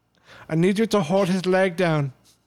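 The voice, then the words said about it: Poor imitation German accent. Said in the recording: “your terrible German accent”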